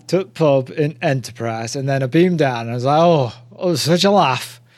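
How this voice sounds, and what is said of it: Poor attempt at Yorkshire accent. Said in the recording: “that wasn't really a Yorkshire accent, because I've no idea what how to do a Yorkshire accent.”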